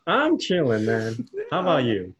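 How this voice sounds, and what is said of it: High-pitched imitation of another person. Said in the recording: “Is my voice really that high? ... It's just my best Josh impersonation”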